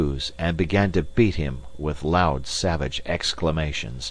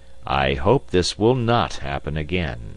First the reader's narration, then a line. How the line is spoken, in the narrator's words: said Phileas Fogg coldly